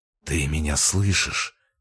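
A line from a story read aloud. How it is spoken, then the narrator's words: Hoarse desperate whisper. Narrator (Russian): прошептал сипло с отчаянием, как в последний раз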